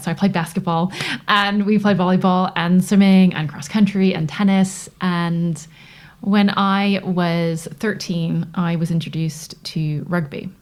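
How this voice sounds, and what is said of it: North American accent. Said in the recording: “as you can tell from my accent, I grew up in North America. ... An American”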